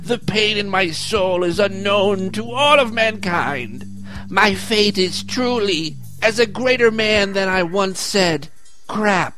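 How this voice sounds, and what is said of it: John Adams impression. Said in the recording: “pretty good John Adams impression”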